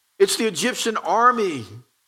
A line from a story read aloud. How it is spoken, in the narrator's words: cried